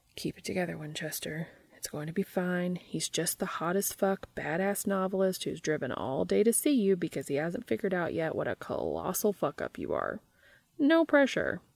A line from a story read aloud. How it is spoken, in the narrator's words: Dean took a deep breath and muttered to himself